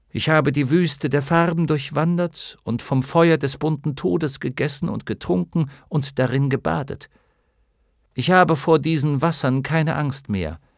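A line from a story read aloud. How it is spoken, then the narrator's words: Calm reply. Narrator (German): versetzte Bastian ruhig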